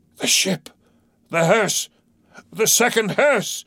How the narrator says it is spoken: cried Ahab from the boat

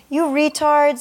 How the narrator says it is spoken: his voice was high with relief

